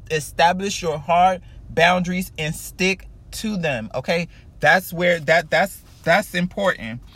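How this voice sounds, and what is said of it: Loud, yelling delivery. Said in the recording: “I'm sorry if I'm yelling.”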